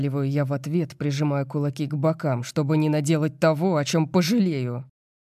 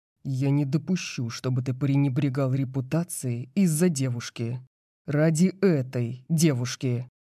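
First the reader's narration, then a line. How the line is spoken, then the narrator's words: Low murderous voice. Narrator (Russian): говорит он низким убийственным голосом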